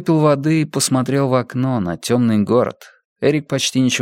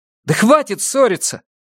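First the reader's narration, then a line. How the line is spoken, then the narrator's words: Shouting. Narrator (Russian): крикнул Бенямин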